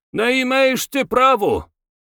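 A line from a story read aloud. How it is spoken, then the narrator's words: Indignant shouting. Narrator (Russian): возмущенно кричал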